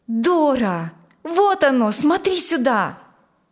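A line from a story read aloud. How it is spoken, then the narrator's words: Sudden exclamation. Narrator (Russian): воскликнула она вдруг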